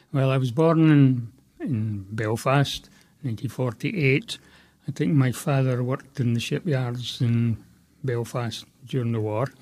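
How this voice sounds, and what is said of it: Scottish accent. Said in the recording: “You've got a Scottish accent.”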